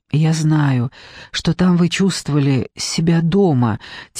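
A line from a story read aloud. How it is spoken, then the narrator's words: Quiet continuation. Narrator (Russian): тихо продолжала она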